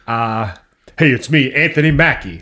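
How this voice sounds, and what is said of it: Imitates another person's voice. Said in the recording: “An Anthony Mackie impression? ... Is that blackface as a white guy doing a black voice?”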